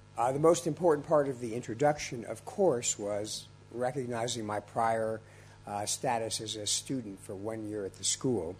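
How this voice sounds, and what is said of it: Slightly congested voice. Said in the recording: “I have a little bit of a cold I'm recovering from.”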